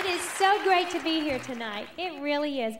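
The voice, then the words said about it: Strong country Southern accent. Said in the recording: “I was so young and so country. My accent, when you listen”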